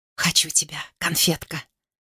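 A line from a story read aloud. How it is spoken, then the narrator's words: Whisper. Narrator (Russian): прошептал Ян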